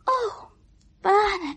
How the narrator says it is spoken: she sighed fervently

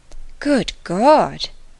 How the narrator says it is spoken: she cried

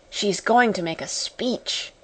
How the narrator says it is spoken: whispered one of the girls

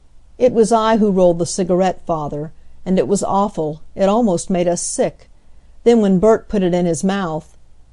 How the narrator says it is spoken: His tears choked back his words

